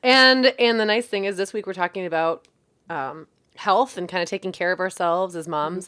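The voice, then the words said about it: Hoarse voice. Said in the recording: “I'm a little hoarse because I had family here all last week and I talked myself out of a voice”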